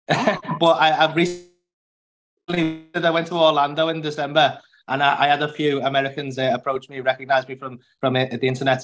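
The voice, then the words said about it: Strong accent. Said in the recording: “I wasn't sure if people would get my accent... I think I have quite an a strong accent”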